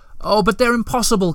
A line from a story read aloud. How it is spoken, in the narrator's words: cried Moomintroll, beside himself now